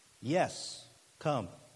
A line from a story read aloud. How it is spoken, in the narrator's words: Jesus said